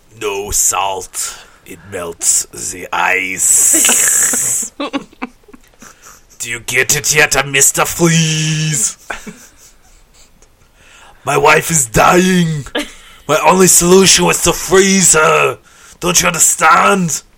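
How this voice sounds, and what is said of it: Imitates Mr. Freeze character voice. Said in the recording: “You actually do a really good impression.”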